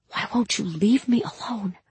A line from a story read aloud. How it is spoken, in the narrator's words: I whispered